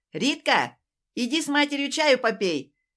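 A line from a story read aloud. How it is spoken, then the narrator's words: Calling out across apartment. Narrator (Russian): крикнула в глубину квартиры Татьяна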